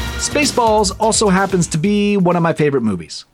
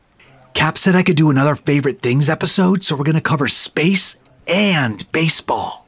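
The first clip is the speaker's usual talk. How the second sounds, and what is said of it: Whispering. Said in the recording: “why are we whispering?”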